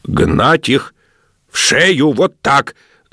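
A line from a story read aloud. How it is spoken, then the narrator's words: Shouting in a strange voice. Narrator (Russian): закричал он не своим голосом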